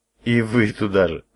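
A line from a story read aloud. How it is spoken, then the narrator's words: Laughing. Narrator (Russian): рассмеялся я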